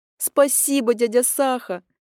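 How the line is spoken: Childlike squeal over phone. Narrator (Russian): Совершенно по-детски взвизгнула трубка

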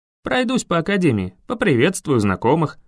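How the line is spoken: Cheerful. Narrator (Russian): весело ответил я

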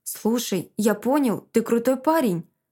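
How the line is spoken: Stammering. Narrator (Russian): запинается

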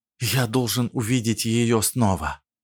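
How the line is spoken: Whispered. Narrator (Russian): прошептал

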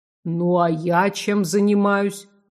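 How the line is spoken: Grumpy deep monster bass. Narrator (Russian): сварливо пробасило чудовище

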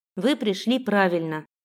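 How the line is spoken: Plain. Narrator (Russian): сказала я

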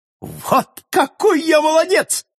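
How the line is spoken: Amazed exclamation. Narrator (Russian): воскликнул портняшка, сам дивясь своей отваге

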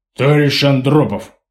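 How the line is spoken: Deep booming official tone. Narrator (Russian): забасил он, переходя на официальный лад

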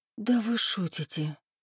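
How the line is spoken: Whisper. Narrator (Russian): прошептала я

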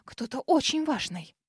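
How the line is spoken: Frightened muttering while rushing. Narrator (Russian): Девушка, испуганно дернувшись, на ходу пробурчав

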